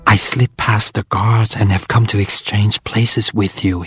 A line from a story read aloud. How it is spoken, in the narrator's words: whispered